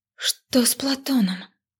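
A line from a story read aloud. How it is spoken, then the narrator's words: Breathless, heart pounding. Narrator (Russian): Выдохнула, почувствовав, что сердце готово выскочить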